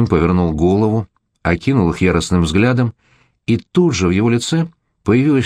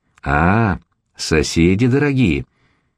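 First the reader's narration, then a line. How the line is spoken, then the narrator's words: Sarcastic drawl. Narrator (Russian): протянул он непонятным язвительным голосом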